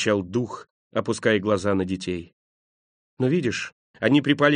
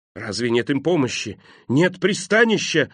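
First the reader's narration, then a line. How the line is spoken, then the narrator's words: Exclamation. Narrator (Russian): воскликнул Скрудж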